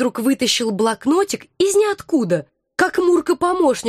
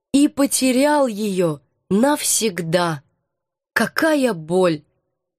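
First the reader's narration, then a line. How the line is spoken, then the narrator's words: Enthusiastic then dejected. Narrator (Russian): восторженно перечислила я и упавшим голосом добавила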